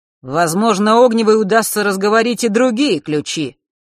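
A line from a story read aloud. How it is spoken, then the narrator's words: Sudden loud statement. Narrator (Russian): вдруг громко произнес Марк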